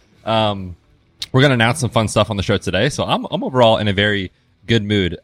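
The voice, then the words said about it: Congested voice from a cold. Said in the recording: “I have a cold. ... So here I am with a little bit of a cold. So if I sniffle or cough or clear my throat”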